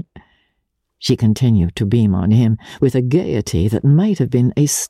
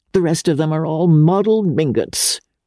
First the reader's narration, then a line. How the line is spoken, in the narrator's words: cried the old lady scornfully